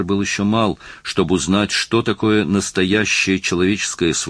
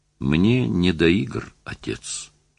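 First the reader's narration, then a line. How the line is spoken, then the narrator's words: Sad. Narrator (Russian): сказал он грустно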